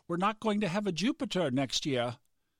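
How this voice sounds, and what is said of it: Poor put-on Australian accent. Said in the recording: “She's from Australia. I mean, that's not a very good Australian dialect at all.”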